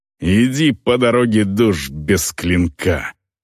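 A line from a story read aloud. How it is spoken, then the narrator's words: Growl. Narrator (Russian): Рыкнула орка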